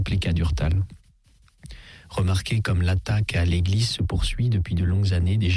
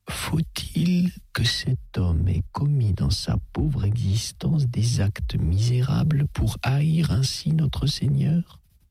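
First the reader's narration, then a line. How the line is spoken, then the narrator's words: Slow speech. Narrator (French): fit lentement Don de Faux-Neuve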